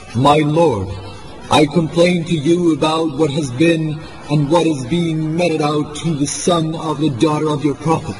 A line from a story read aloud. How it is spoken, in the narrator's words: Imam exclaimed